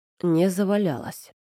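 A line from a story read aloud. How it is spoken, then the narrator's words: Muffled reply. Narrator (Russian): отозвался глухо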